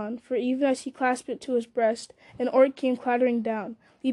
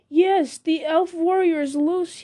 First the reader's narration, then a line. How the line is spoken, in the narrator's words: he cried